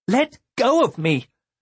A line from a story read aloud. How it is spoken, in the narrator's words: Elaria, her voice gone shrill